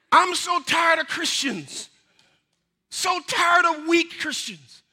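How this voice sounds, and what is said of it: Loud, yelling preaching voice. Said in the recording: “I feel like I'm yelling. Am I yelling to you? ... Turn me down then, because I'm not getting any softer.”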